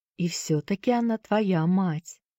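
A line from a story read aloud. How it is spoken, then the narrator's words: Soft, gentle. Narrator (Russian): мягко произнесла миссис Шафта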